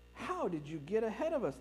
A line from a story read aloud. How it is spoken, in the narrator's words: asked